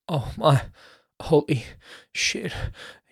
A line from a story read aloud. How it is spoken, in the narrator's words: he gasped